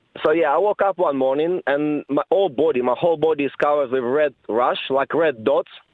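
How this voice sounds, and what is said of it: Speaks with a noticeable foreign accent. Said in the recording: “your wonderful accent”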